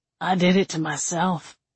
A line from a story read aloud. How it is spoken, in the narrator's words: he mumbled